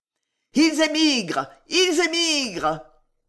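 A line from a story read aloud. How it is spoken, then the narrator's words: Breathless shout. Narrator (French): essoufflé et cria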